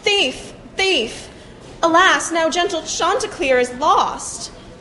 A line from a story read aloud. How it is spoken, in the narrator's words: yelled and cried